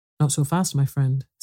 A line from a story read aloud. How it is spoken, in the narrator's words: said the lion